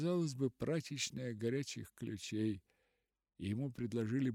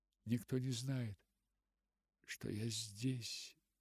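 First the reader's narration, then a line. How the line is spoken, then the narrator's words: Quiet, pleading. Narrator (Russian): сказала Руфь тихо, с молящей улыбкой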